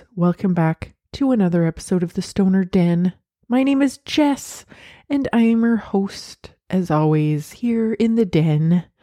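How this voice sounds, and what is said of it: Congested, stuffy-nosed voice. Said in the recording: “I sound a little congested. ... my nose decided that it was going to get all clogged up.”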